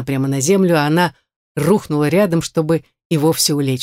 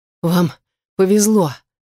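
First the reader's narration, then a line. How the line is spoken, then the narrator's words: Ragged exhale. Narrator (Russian): рвано выдохнула она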